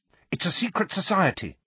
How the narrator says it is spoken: said Hermione quickly

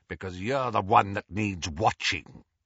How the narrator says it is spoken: growled Moody

